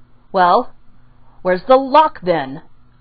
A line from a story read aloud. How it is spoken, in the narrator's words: Kakashi snapped impatiently